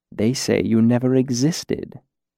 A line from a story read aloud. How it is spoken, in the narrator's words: corrected gently